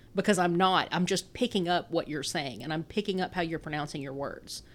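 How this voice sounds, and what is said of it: Pronounced regional accent. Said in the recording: “you can hear me now talking with a very pronounced accent. This is way less than it used to be.”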